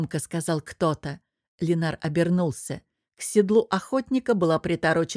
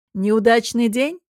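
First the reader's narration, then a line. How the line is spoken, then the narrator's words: Mocking. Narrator (Russian): насмешливо улыбнулся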